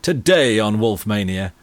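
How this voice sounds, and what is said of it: Exaggerated announcer voice. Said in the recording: “doing the announcer voice ... I like the announcer voice”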